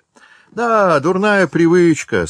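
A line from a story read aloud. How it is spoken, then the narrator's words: Young man laughing. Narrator (Russian): сказал молодой человек и опять засмеялся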